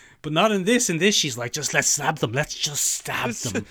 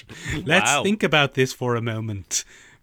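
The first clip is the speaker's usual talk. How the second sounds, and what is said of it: Imitates an actress's voice. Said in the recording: “This is my Gal Gadot impression.”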